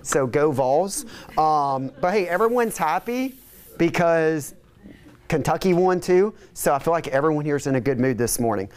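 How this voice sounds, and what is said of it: Hoarse voice cutting in and out. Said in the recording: “My voice is kind of like going in and out after yelling at the TV yesterday for a solid like 5 hours”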